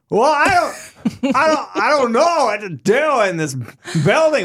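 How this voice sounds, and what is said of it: Poor impression of another person's voice. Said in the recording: “That sounds like Christopher Walken. ... That was a garbage impression.”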